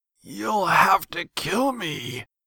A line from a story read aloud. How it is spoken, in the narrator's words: wheezed Jace, tears streaming from inhuman glowing eyes